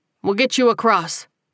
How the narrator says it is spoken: Ernest said firmly

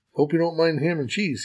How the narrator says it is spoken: said

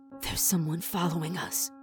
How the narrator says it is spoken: Sammy said in a choked whisper

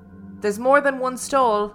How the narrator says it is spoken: It startled me, and I called out

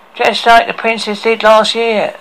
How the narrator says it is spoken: shouted an angry dolphin

